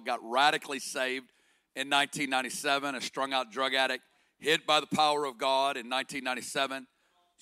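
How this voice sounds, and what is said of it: Arkansas Southern American accent. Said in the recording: “You're going to hear an accent. It's from Arkansas”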